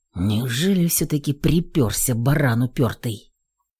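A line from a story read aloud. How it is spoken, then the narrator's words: Annoyed gloomy mutter. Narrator (Russian): Пробормотал раздосадованно мигом помрачневший Горинов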